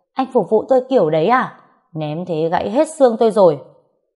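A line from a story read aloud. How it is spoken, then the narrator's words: Groggy pained yell. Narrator (Vietnamese): Đau quá nên tôi mắt nhắm mắt mở gào lên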